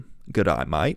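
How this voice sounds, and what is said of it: Put-on Australian accent. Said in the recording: “I like the Australian accent ... I think it's a good accent.”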